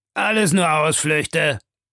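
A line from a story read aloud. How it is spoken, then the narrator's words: Calling out. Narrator (German): rief Stamp Proctor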